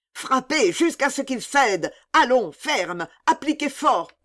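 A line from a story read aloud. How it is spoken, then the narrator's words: Yelling. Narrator (French): hurla le gris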